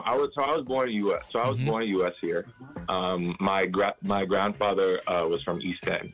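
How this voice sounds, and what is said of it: Caymanian accent. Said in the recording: “you have a very Caymanian accent.”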